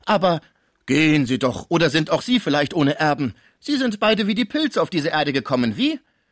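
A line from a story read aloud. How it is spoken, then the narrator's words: Called out. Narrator (German): rief Schmucke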